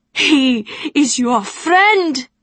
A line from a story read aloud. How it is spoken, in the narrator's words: cried